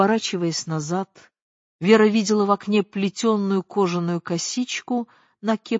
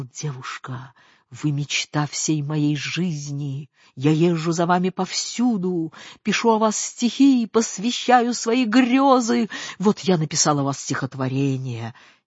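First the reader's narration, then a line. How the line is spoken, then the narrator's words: Whispered into her ear. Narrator (Russian): наклонился к ее уху и прошептал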